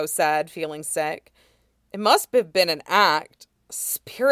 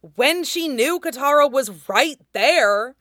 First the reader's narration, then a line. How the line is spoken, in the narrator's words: Sokka said impatiently